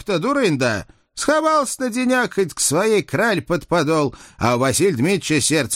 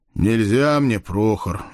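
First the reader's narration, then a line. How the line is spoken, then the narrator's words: Sighing. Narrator (Russian): вздохнул я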